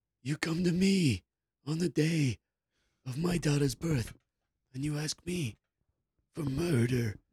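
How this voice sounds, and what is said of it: Godfather movie character impression. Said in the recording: “That's such a good impression of the godfather.”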